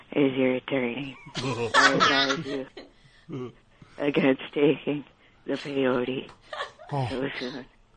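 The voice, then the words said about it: Imitates another person's voice. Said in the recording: “Do your impression of Mike ... You're doing your impression of AP Mike as Acosta.”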